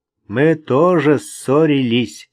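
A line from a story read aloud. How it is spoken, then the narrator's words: Laughing. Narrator (Russian): засмеялся Вик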